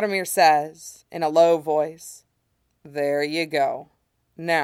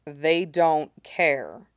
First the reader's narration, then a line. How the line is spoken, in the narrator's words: Yaromir says firmly